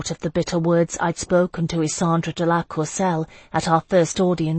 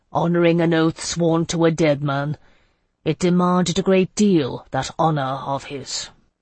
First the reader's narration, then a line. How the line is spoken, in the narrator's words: Gaspar said gruffly